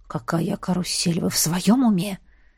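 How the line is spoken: Low growl. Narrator (Russian): Тихо зарычал он на меня

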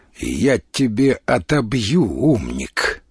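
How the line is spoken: Through gritted teeth. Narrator (Russian): процедил старший лейтенант

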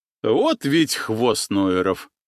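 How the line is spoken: Sorcerer's hearty laughter. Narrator (Russian): расхохотался колдун

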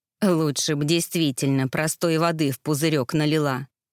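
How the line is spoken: Grumbling witch. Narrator (Russian): проворчала ведьма

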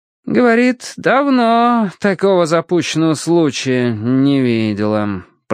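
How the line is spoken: Drawled. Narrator (Russian): протянул Финч

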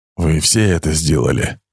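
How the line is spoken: Whisper. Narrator (Russian): прошептал он

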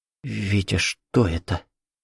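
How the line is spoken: Whispered. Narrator (Russian): прошептала Катя

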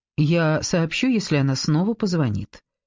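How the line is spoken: Respectful. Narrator (Russian): сказала я почтительным тоном

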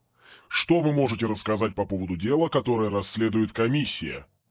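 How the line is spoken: Offended question. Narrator (Russian): спросил обиженным голосом

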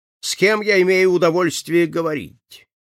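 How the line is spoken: Shrill question. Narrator (Russian): пронзительным голосом спросила меня

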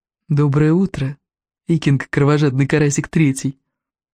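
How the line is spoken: Tender purr. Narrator (Russian): Ласково промурлыкал Элвин Вероломный

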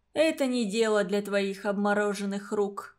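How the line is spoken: Nun's sigh. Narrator (Russian): вздохнула монахиня

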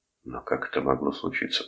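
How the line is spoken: Whisper. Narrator (Russian): прошептал Торн

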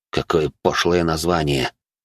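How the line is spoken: Muttered under breath. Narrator (Russian): буркнул себе под нос

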